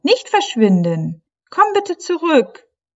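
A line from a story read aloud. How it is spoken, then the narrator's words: Call. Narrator (German): rief Julia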